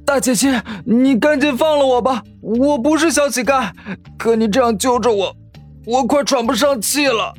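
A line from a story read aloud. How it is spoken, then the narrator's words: Choked, breathless stammering. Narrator (Chinese): 万宇被他揪住了脖子，喘息有些困难，结结巴巴的说道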